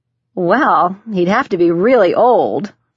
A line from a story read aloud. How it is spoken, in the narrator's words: I laughed